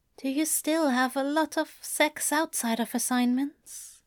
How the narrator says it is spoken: Aziraphale asks very quietly

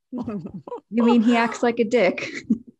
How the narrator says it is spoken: Max laughed

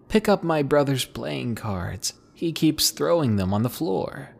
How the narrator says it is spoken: she was laughing so hard and told me

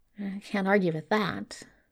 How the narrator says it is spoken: Crowley muttered

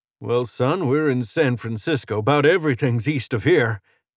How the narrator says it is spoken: Bill laughed, but not quite as loud as the first time

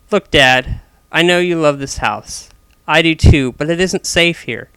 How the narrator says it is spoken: said in a forceful tone

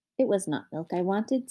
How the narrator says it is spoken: said Mother Farthing

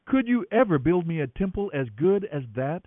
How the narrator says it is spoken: asked the Lord

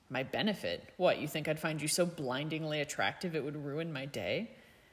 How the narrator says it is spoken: Draco snorted

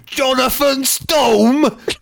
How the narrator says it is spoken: bellows

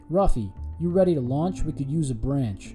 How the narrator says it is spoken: said Miyazaki

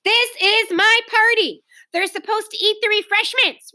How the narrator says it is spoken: Ramona howled

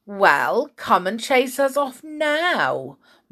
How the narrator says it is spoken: mocked the two boys, sliding about

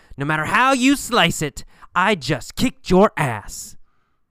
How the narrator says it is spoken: Jim won the fight, and he yelled

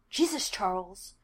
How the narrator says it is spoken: Jake hisses

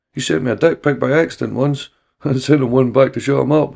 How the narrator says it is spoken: Reggie laughed

